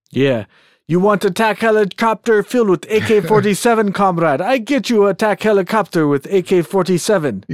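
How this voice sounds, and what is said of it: Bad put-on Russian accent. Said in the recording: “That has to be the worst Russian accent I've ever heard.”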